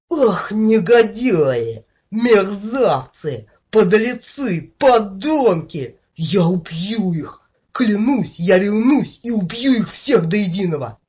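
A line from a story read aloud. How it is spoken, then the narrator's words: Howled. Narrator (Russian): взвыл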